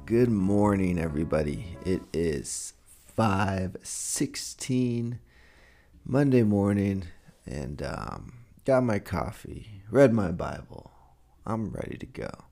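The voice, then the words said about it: Sounds a little tired, low energy. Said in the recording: “I think I sound a little tired, though. I don't know if I have my energy as usual”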